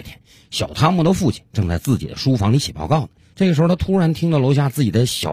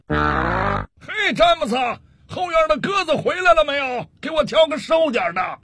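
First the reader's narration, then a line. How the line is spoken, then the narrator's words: Impatient shout. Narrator (Chinese): 工作人员很不耐烦地回头冲里屋喊了一声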